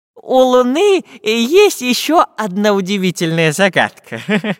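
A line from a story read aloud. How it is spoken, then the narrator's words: Laughing. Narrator (Russian): засмеялся профессор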